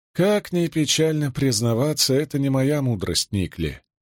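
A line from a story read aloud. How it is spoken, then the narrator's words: Sigh. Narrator (Russian): вздохнула Рисон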